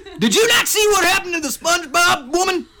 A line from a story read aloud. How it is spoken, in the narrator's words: I scream